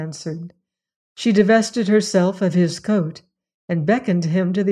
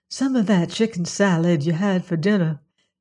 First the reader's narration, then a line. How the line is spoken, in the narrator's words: murmured